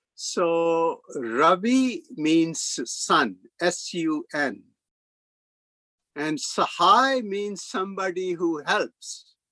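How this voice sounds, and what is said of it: Indian accent. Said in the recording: “I come from India, and probably you can guess it from my looks and accent.”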